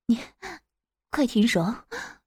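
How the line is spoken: Low, near-tearful moaning. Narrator (Chinese): 岳母已经完全忍不住了，一边发出像是要哭呻吟声 低声说

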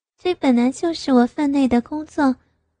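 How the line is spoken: Soft giggling. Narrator (Chinese): 小林咯咯轻笑

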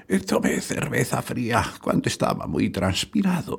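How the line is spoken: Whisper. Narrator (Spanish): susurró

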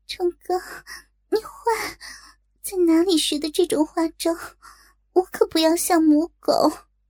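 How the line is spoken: Breathless coy. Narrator (Chinese): 莹莹娇喘吁吁，好似依然沉浸在刚才的快乐中，娇羞道

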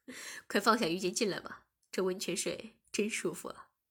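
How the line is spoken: Smiling. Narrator (Chinese): 我笑了笑便说

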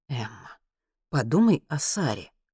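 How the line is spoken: Sighing. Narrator (Russian): вздохнул пэр Хенрик

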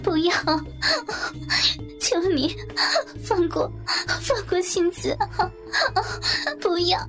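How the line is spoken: Tearful pleading. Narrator (Chinese): 香枝哭着哀求

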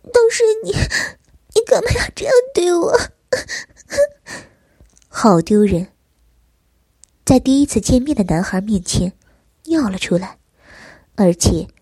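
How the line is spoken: Aggrieved whimpering sobs. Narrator (Chinese): 玲珑觉得委屈，嘤嘤的哭了起来

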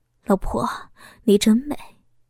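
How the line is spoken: Tender, smiling. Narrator (Chinese): 小峰微笑着 温柔的说道

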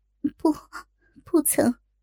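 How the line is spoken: Low voice, head bowed. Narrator (Chinese): 低下头，低声道

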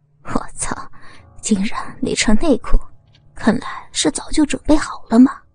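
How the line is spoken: Smug laughing. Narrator (Chinese): 得意的笑着说

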